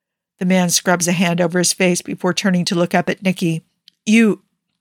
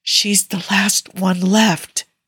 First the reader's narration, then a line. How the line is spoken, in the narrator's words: Yusuf whispers